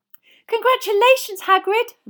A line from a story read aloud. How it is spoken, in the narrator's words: Hermione squealed